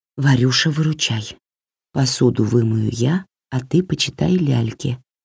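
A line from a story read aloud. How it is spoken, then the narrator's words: Barely audible whisper. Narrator (Russian): сказала она еле слышным шепотом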